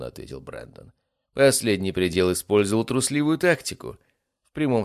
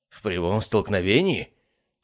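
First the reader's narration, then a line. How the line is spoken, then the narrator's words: Old man's snort. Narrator (Russian): фыркнул седовласый старейшина южной ветви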